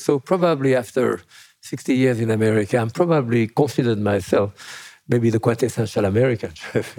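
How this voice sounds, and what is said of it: French accent. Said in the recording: “With a French accent.”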